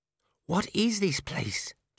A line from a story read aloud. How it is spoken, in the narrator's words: Cheery whispered